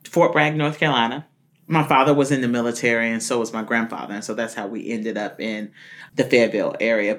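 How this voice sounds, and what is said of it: North Carolina Southern accent. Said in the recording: “I grew up originally in North Carolina. You can hear it in my tone. ... My dialect.”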